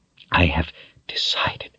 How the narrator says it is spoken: she said breathlessly

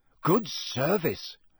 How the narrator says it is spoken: Ron said, in an impressed voice

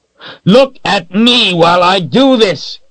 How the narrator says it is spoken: he yelled

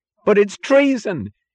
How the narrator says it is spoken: cried Eugene Lawson

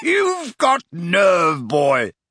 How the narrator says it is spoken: he boomed

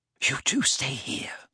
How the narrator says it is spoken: whispered Hermione

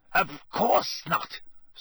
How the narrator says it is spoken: Snape snapped

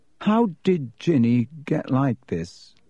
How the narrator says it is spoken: He asked slowly

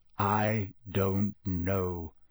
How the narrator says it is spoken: said Sirius slowly

